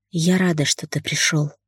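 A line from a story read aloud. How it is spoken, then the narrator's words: Whispered. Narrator (Russian): прошептала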